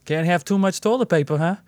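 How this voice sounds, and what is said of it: Put-on Northeastern US accent. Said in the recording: “she's from the Northeast... It just happens to be my favorite accent to do... she definitely had that accent”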